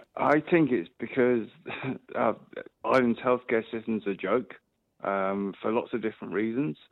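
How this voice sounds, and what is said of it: English accent. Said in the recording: “obviously I'm from England, you can tell by my accent”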